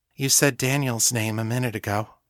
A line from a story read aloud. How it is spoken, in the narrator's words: Sasha said quietly